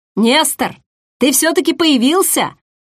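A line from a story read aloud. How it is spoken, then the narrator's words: Joyful groom exclaiming. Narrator (Russian): радостно воскликнул помятый жених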